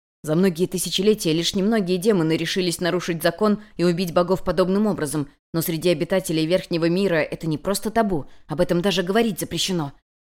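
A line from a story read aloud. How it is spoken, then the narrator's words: Quick interrupting whisper. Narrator (Russian): Перебив Юнь-Юнь, быстро зашептал Хань-Ли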